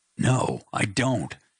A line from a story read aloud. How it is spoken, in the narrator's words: I exclaimed loudly